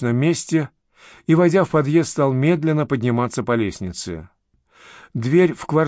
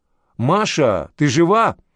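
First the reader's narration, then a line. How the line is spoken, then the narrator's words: Muffled shout. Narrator (Russian): крикнул, прикрывая нос платком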